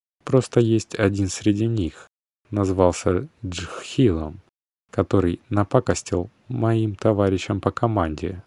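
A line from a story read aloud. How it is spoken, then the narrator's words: Stammering. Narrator (Russian): запинаясь, закончил он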